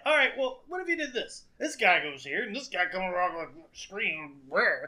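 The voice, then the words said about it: Imitates a sports commentator's voice. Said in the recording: “My best impression of John Madden.”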